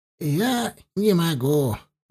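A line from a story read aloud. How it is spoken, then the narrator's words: Sighing. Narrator (Russian): вздохнула Калма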